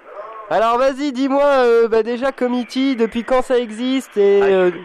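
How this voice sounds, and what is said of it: Shouting into the microphone. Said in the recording (French): “je crie dans le micro depuis tout à l'heure ... on va la faire en criant l'interview”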